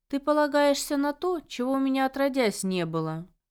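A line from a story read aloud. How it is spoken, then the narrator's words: Snorting tailed creature. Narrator (Russian): хмыкнул хвостатый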